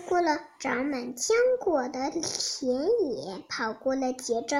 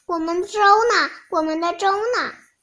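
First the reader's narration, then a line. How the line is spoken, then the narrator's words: Small animals shouting together. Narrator (Chinese): 门外小动物们一起在喊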